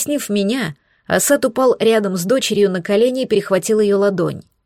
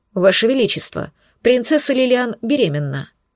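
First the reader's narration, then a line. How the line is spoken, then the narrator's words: Matter-of-fact tone. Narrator (Russian): заключил он будничным тоном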